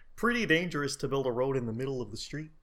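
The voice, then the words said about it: Kermit the Frog voice, too deep. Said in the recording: “not a bad Kermit, but it was a little bit ... my voice is too deep”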